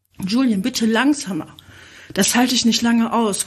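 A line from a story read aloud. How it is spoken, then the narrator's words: Panting. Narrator (German): keuchte sie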